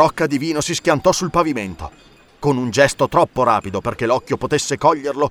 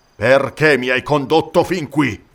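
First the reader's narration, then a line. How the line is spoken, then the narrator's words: Mercenary's growl. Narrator (Italian): ringhiò il mercenario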